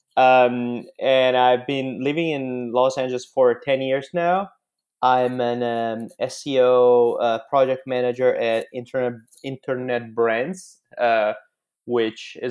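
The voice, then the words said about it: Italian accent. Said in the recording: “I'm Italian, in case my accent won't make it obvious”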